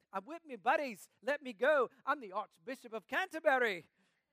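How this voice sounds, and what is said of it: Deliberately bad put-on English accent. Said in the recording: “That's my very bad English accent.”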